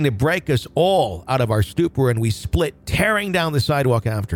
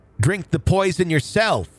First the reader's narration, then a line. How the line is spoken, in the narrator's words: He heard Burley yell